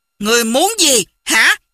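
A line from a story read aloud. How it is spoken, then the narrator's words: Angry question. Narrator (Vietnamese): Hoàng Dung tức giận hỏi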